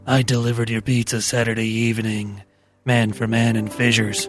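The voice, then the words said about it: Exaggerated sexy voice. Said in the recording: “if you could put some sexy voice on it ... Hot.”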